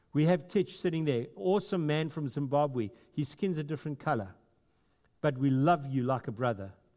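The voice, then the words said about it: South African accent. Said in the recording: “my funny South African accent”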